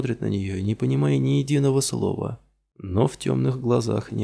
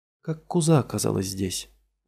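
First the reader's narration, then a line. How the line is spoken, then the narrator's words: Weary question. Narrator (Russian): Устало спрашивает Молли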